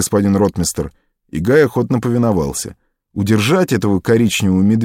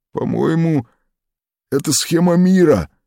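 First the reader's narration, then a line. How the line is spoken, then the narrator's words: Uncertain. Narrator (Russian): неуверенно сказал Зеф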